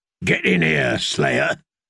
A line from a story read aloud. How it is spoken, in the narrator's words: growled the man in the doorway